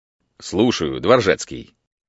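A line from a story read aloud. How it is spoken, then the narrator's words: Deep voice over phone. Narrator (Russian): пробасила трубка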